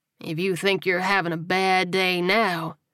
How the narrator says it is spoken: Buddy drawled with a sneer

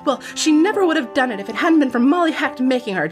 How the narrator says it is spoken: Jessica cried out suddenly, breaking her long silence

